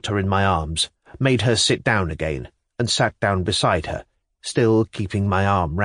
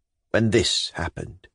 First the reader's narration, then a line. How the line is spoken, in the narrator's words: she said softly